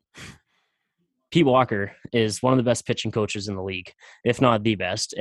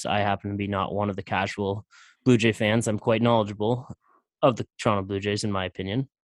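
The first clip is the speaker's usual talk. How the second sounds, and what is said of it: Sarcastic tone. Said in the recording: “That was sarcastic, of course”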